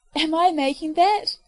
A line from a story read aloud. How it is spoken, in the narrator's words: Elizabeth cried, delighted